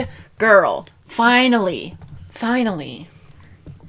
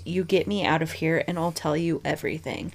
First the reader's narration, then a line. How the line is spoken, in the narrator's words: whispering to the officers